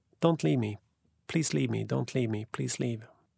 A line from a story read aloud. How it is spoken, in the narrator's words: She whispered